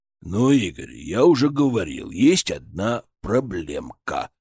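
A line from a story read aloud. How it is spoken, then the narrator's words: Grumbling bear. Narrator (Russian): пробурчал медведь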